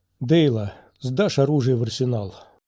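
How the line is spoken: Tired. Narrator (Russian): устало проговорил Кеноби

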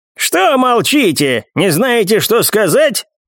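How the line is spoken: Creaky voice. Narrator (Russian): проскрипел Хань

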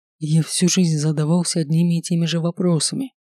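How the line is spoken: Hoarse pronouncement. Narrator (Russian): хрипло изрекает

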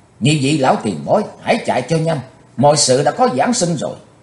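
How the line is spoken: Loud shout. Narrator (Vietnamese): Chí Tôn quát to

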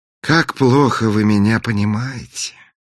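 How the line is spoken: Sighed. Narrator (Russian): вздохнул принц

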